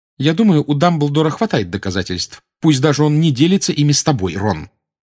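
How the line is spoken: Sharp reply. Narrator (Russian): резко отозвалась Гермиона

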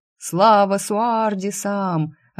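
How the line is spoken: Joyful yelling. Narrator (Russian): радостно вопил брат

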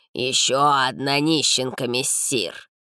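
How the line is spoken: Hoarse distant voice. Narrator (Russian): донесся хриплый голос

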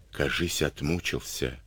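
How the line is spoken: Whispered. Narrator (Russian): шепнул ефрейтор соседям

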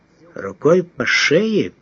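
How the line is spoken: Thoughtful mutter. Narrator (Russian): пробормотал он задумчиво

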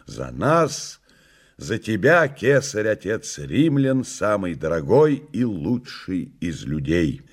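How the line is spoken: Loud toast. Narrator (Russian): прокуратор произнес, громко

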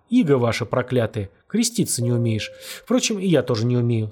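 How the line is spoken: Tearful tone. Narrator (Russian): сказал он слезливым тоном

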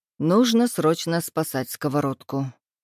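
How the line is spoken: Sighed. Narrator (Russian): вздохнул я

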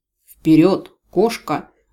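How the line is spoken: Angry hiss, inner voice. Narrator (Russian): зло прошипел внутренний голос

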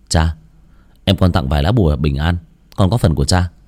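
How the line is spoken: Sighing. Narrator (Vietnamese): Lạc Kỳ nhịn không được thở dài

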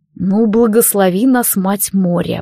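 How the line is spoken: Grumbled. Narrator (Russian): буркнул Алистар

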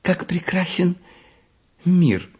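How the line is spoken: Little jester's exclamation. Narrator (Russian): воскликнула маленькая шутиха

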